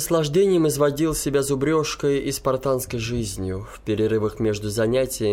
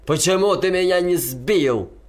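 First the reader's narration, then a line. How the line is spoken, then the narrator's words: Silent mental shout. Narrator (Russian): я мысленно кричал вслед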